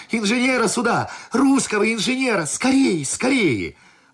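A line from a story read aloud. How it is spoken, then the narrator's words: Boy shouting urgently. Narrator (Russian): паренек все кричал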